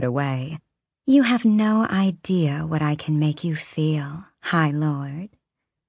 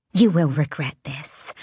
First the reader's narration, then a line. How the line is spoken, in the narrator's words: she hissed